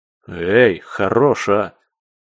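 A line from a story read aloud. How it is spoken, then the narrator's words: Grumbling. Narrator (Russian): проворчал я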